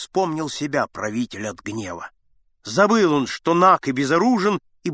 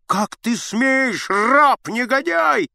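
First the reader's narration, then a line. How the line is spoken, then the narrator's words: Shouting. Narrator (Russian): закричал Аггей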